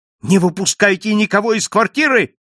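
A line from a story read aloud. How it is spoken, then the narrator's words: Shouting. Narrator (Russian): закричал я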